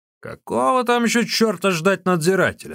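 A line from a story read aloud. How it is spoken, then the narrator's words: Shout. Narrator (Russian): закричал Ликуй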